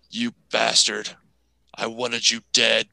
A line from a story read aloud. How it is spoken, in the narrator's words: snarling and says